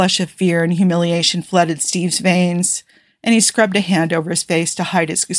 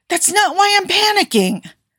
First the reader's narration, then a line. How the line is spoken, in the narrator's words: Tony snapped